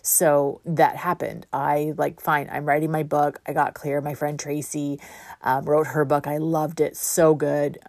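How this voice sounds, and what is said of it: Voice going hoarse. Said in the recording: “I'm losing my voice. I can tell this.”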